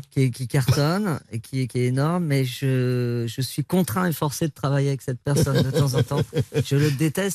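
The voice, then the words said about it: Put-on Réunionnais French accent. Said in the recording (French): “Je ne sais pas si je fais bien l'accent réunionnais.”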